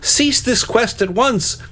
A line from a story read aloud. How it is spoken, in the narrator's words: cried the Blue Knight